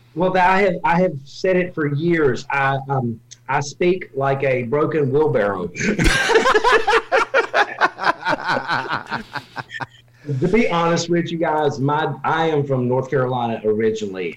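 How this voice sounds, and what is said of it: Slight Southern twang. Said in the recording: “You have a little twang.”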